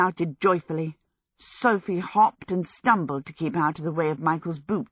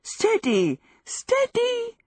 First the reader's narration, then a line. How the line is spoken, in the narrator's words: she gasped, giddily